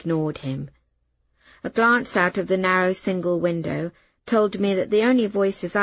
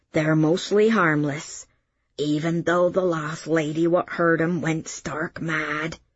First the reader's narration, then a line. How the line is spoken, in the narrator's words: he added, dropping into a dialect stage whisper